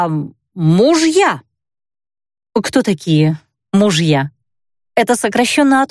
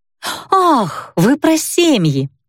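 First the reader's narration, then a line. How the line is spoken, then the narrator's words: Woman exclaiming. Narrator (Russian): воскликнула дуэлийка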